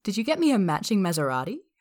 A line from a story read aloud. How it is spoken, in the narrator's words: Sophia asks playfully